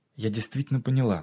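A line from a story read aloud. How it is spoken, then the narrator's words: Plain. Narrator (Russian): сказала она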